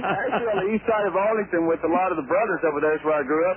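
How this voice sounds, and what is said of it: Lazy Southern drawl accent. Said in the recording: “your accent ... It's more just a lazy draw ... People always thought I was from Georgia or somewhere, the way that I spoke”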